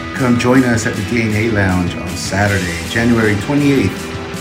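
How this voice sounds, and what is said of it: Sexy, sultry announcer voice. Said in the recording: “You guys recognize that sexy voice? That was me.”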